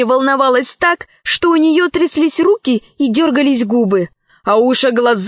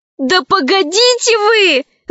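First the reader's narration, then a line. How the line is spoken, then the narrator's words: Shouting slave woman. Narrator (Russian): закричала рабыня Заури Лара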